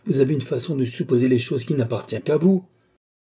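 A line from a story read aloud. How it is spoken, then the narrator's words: Exclaiming. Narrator (French): s'écria Madame du Barry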